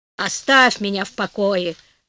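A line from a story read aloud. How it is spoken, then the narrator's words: Grumbling husband. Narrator (Russian): заворчал муж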